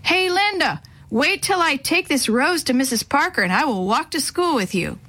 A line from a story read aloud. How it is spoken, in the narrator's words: he yelled across the street